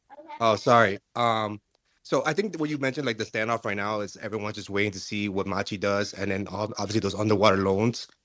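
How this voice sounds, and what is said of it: Sleepy-sounding voice. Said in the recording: “you sound sleepy ... You sound sleepy ... Are you sleepy? You a little sleepy.”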